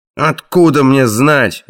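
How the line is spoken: Barked. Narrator (Russian): рявкнул Краннан

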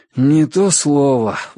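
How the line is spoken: Sighing. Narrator (Russian): вздохнул Ричард

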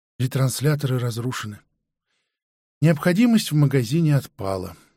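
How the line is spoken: Sighing. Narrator (Russian): вздохнул продавец

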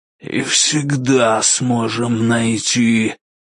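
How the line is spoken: Hiss. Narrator (Russian): прошипел Вандемар

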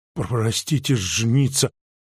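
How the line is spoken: Muttered. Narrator (Russian): пробормотал он

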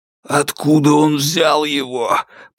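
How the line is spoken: Hoarse rasp. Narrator (Russian): прохрипел Вяземцев

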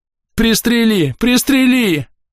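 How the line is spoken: Yelling, slipping between languages. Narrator (Russian): Орал на английском, время от времени сбиваясь на родной

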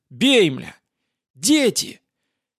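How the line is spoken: Driver screaming. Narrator (Russian): вопила водительница

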